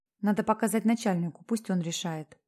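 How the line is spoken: Whisper. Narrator (Russian): сказала она шепотом

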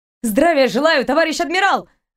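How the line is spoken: Barked, unsteady. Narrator (Russian): рявкнула она, чувствуя, что сейчас завалится на бок

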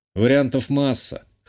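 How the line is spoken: Snorting chuckle. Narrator (Russian): хмыкнул я

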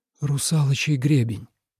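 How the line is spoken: Breathed out. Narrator (Russian): выдохнул Тобиас

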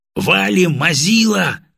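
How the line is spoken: Yelled. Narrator (Russian): заорал я

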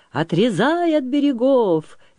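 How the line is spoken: Cheerful command. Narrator (Russian): весело командовал Петрила

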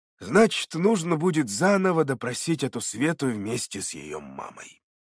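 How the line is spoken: Sighing. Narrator (Russian): вздохнул Державин, удрученно разглядывая ворох бумаг перед собой

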